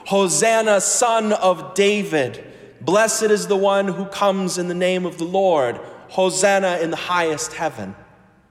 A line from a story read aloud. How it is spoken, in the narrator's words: The crowds that went ahead of him and that followed were shouting